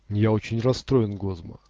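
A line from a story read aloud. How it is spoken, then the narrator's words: Plain. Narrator (Russian): сказал этот Элесса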